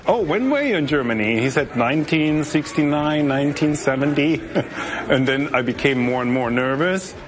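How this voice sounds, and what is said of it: German accent. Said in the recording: “I hear an accent. Where is your accent for?" I said, "From Germany."”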